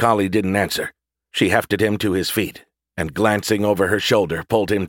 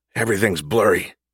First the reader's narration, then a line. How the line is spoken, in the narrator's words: Gus muttered